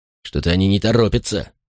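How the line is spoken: Grumbling. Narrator (Russian): проворчал один

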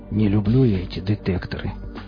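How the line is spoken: Low, quiet voice. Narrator (Russian): негромко произнес сталкер, прислушиваясь

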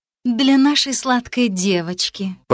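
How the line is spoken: Purring. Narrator (Russian): промурлыкала эта язва

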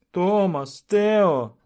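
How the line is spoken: Hoarse shout. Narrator (Russian): закричала Кэт совершенно охрипшим голосом

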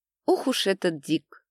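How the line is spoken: Disappointed laugh. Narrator (Russian): Разочарованно засмеялась Надя

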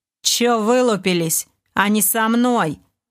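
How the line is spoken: Rude. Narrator (Russian): довольно грубо заявил Дэн

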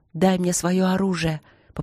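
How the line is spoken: Hoarse plea. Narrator (Russian): попросила Ангелина сипло

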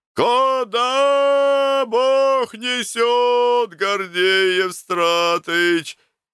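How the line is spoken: Distant shout. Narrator (Russian): Издали кричал Шабалин

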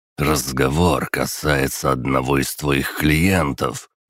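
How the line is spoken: Unpleasant voice. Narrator (Russian): неприятным голосом проговорил Веселовский

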